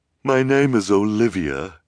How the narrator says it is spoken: she said finally, with a shuddering sigh

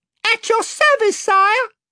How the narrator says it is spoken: piped Reby Cheep from another corner

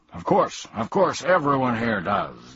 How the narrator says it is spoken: the king grunted

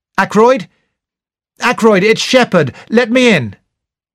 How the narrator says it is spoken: I called out

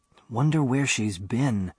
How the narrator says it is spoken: Bando whispered

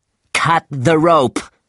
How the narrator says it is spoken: shouted Starbuck angrily

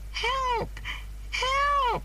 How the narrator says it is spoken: she cried

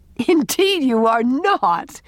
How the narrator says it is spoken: laughed Anne

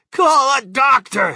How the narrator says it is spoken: shouted Mr

